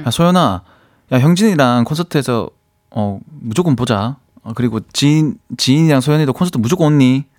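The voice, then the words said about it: Put-on Busan dialect, relaxed. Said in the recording (Korean): “부산 사투리로 가능하실까요? ... 과하지 않게 ... 그 부산 툭, 스타일로. 툭, 진짜 툭. ... 힘 빼고 ... 부산 사투리로 또 해 주셨고요”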